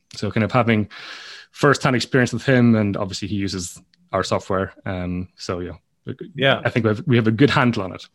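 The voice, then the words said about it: Understandable Irish accent. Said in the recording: “for being Irish, your accent is quite understandable”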